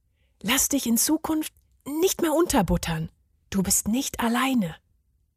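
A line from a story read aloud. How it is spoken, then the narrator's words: Whispered. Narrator (German): flüsterte er ihm zu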